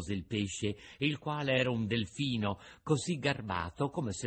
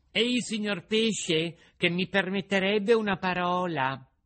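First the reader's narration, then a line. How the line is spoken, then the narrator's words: Loud shout to be heard. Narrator (Italian): il burattino gli gridò a voce alta per farsi sentire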